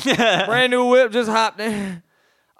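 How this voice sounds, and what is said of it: Imitates another person's voice, badly. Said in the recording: “That was terrible, by the way. ... my voice is so bad”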